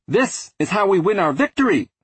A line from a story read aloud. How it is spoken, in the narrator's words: he cried